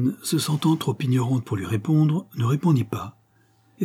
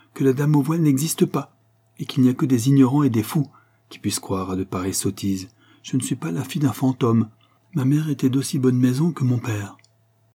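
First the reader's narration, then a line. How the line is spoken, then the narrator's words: Curt reply. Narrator (French): répondit-elle sèchement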